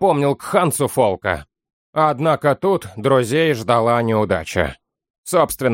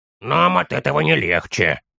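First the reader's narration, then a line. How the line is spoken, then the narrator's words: Small gnome's mutter. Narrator (Russian): пробурчал маленький гном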